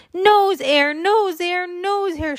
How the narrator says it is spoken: hollered in his ear

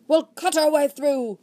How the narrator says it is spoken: shrieked again

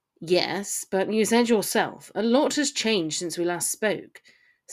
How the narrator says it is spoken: said Theo, somewhat coldly

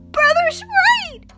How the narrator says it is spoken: sobbed

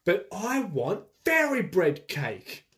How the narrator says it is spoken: Lizzie screamed

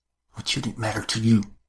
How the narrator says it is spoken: Her voice was low, as cutting as the sacrificial knife

